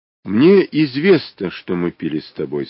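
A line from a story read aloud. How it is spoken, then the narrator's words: Plain. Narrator (Russian): сказала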